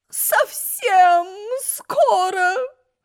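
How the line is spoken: Moaning queen. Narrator (Russian): Стонала королева

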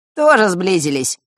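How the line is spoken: Snorting. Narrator (Russian): хмыкнул Данила

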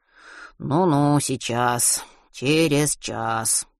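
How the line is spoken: Grumbled. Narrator (Russian): проворчал Матвей

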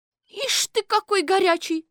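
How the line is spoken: Shouting. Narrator (Russian): закричала Колбочкина

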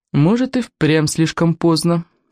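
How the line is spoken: Gloomy admission. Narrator (Russian): мрачно признала Волгаларама

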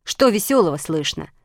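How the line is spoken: Angry question. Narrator (Russian): спросила буква А сердитым голосом

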